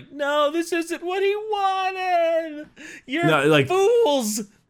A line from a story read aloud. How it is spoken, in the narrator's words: Gilliman screaming at priests, being like